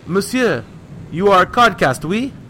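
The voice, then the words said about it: Strong French accent. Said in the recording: “hailed us in a strong Gaelic accent.”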